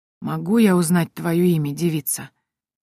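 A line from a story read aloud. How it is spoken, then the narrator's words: Hoarse inquiry. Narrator (Russian): хриплым голосом поинтересовался Адам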